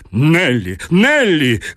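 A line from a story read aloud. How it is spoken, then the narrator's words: Harmonious shout. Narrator (Russian): крикнул граф гармоничным голосом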